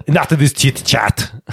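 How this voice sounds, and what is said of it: Terminator-style action-hero impression. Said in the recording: “a full-on Terminator impression ... I can do Arnie fine ... That's beautiful though”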